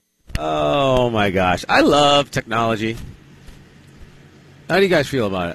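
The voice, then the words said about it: Sarcastic tone. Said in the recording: “That was sarcasm, I believe.”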